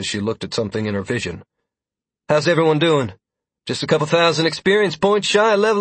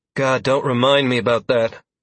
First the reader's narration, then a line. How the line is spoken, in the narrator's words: Sierra added in a pained tone as she exhaled sharply